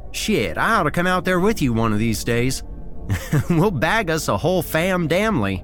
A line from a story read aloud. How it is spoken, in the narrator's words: said with a chuckle